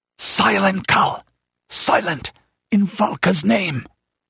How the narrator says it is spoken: hissed the Pict

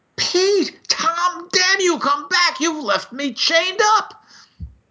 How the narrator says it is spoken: His voice shrieked

